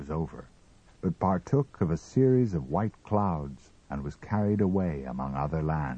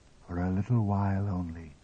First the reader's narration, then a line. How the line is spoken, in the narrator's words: said the voice quietly